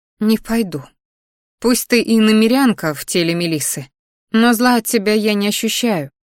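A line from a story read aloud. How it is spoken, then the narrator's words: Sad sniffling voice. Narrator (Russian): шмыгнула носом, печально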